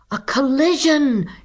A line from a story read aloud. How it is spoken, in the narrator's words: shouted the crowd on shore